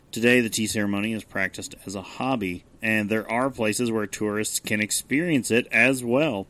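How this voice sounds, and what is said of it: Voice not fully recovered. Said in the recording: “my voice is better than last week, but not back to 100%”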